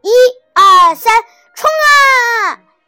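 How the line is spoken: Group shouting with effort. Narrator (Chinese): 小六子、小胖墩儿、鼻涕虫、小刺头、周气包憋足了劲儿，使劲喊道

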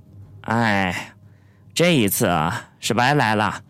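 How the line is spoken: Sighing. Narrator (Chinese): 叹气道

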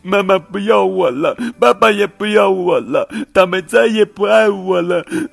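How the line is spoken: Sad crying. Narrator (Chinese): 小袋鼠 伤心的哭了起来

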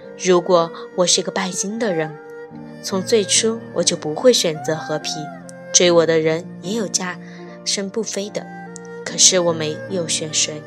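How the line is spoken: Soft sigh. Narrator (Chinese): 他轻轻叹气

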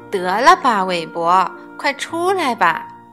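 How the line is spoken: Smiling. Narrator (Chinese): 艾玛笑笑说

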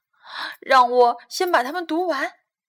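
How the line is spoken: Calling out. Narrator (Chinese): 小亨利叫道

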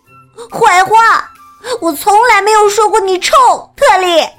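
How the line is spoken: Loud. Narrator (Chinese): 我大声说

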